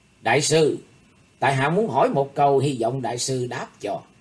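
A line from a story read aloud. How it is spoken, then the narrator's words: Smiling, gentle. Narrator (Vietnamese): Thủy Tuấn Hạo mỉm cười, thái độ ôn hòa nói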